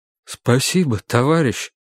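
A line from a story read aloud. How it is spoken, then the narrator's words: Trembling voice. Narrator (Russian): сказал человек дрогнувшим голосом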